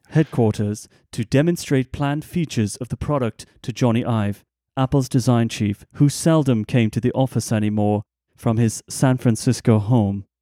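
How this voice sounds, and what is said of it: British accent imitating Jony Ive. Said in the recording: “in his accent ... it really doesn't sound like him. It's a British accent, but it doesn't sound like him.”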